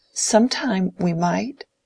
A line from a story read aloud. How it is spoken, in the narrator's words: said Dorothea in a trembling voice